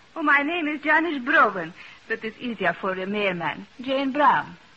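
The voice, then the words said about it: Speaks with a foreign accent. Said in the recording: “you still speak with an accent?”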